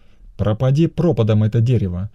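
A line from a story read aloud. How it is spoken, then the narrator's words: Angry reply. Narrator (Russian): сердито отозвался Кешев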